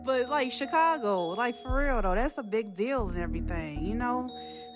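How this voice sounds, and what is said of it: Speaker's own accent comes through. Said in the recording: “My accent coming out now, y'all.”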